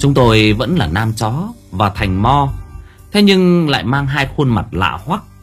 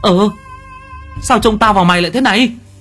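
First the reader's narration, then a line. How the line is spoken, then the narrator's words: Two voices exclaiming together. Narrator (Vietnamese): Cả hai thằng cùng thốt lên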